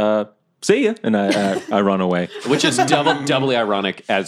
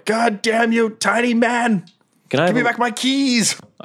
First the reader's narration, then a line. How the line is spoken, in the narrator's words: The drow yells